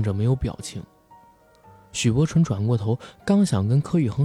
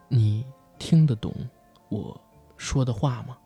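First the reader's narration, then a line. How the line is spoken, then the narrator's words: Soft whisper. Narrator (Chinese): 许伯纯……在耳边轻声的说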